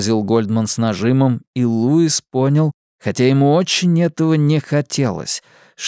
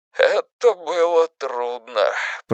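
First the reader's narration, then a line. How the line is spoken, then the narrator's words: Trembling voice. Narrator (Russian): проговорил Гольдман все тем же дрожащим голосом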